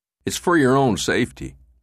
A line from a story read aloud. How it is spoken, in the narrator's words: Morante said